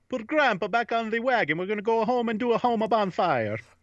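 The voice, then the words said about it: Put-on Italian accent. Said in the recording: “So we can do an Italian accent”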